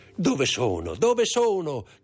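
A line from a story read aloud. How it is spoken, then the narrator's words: Shouted. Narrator (Italian): gridò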